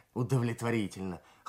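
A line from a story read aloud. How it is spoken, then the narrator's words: Wry grunt. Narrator (Russian): хмыкнул Кравчук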